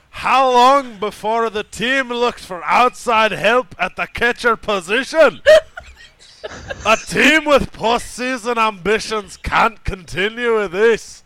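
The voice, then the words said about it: Attempted Scottish accent, mostly yelling. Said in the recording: “I will attempt to read this in the proper accent ... I love that your idea of a Scottish accent is just yelling.”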